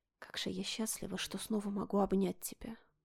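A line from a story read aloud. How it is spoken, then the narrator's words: Whispered. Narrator (Russian): Прошептала мама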